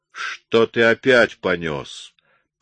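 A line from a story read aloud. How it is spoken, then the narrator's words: Growled. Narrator (Russian): прорычал он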